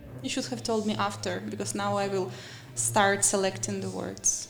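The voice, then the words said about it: Speaks with a noticeable accent. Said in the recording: “I would have started speaking with less of the accent ... we want to hear accent”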